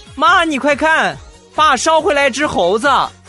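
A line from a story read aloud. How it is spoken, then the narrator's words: Happy, loud shout. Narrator (Chinese): 然后很高兴的冲厨房大声的喊道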